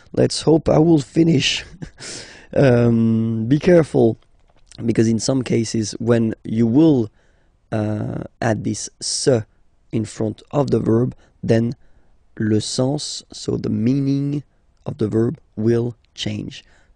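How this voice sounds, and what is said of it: Strained, hoarse voice. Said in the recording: “My God, I'm losing my voice.”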